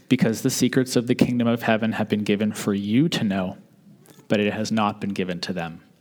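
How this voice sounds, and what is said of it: Slightly deeper voice for Jesus. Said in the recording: “Jesus says this very thing in a slightly deeper voice than mine”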